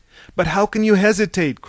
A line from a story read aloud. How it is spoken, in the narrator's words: cried Pylades